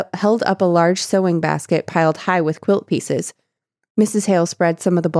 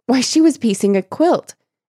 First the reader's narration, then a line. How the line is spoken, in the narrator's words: she exclaimed